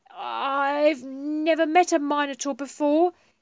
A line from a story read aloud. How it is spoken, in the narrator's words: he blurted